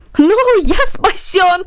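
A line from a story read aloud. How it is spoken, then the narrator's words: Shouting. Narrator (Russian): закричал Джарвис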